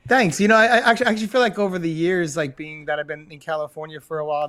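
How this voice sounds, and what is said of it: New York accent. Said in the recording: “Your New York accents, I really appreciate. You've got cool voices. ... I still hear it. Nice. Oh, yeah. Big time.”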